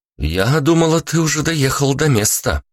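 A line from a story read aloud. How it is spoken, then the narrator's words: Frowning exclamation. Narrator (Russian): воскликнула Вика, хмурясь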